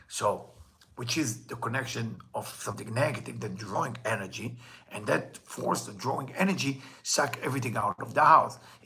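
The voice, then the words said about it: Hebrew accent. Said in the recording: “my Hebrew accent”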